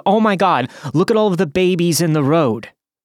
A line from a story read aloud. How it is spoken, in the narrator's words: screamed at the top of her lungs